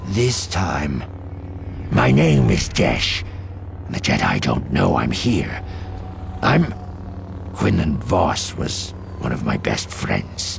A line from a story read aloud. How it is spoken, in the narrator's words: she asked, adding bitterly